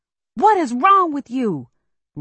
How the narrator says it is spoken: Randall yells

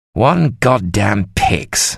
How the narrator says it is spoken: Sir John snarled

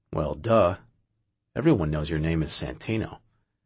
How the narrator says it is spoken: calmly replied

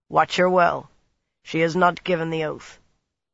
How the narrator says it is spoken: he said in a harsh, dry voice

